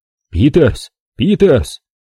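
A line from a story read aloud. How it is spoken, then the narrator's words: Yelling into radio. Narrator (Russian): заорал Джон в рацию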